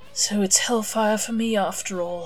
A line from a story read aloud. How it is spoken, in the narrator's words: sighed Aziraphale